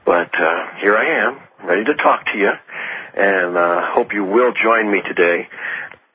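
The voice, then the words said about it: Slightly sick voice with cold. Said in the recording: “I'm a little bit sicky. I have a little cold”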